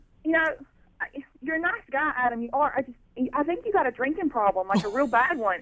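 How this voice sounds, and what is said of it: North Carolina Southern accent. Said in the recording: “I like your accent ... Where are you from? ... North Carolina. ... Oh, yeah, it's cute.”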